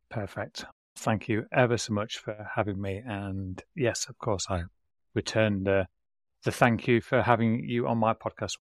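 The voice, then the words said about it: British English accent. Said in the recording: “people can figure out where you're based just simply from your accent ... I am based in the UK”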